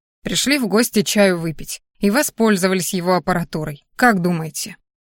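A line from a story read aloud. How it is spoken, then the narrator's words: Contemptuous snort. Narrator (Russian): Вова презрительно фыркнул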